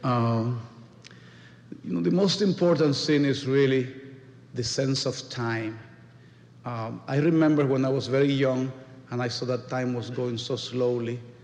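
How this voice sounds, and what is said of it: Hispanic accent in English. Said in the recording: “if you are a Hispanic ... people think that I keep my accent”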